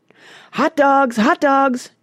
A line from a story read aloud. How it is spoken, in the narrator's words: cried one